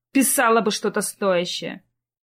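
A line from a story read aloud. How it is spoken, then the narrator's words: Disappointed snort. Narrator (Russian): фыркнула разочарованная Зоя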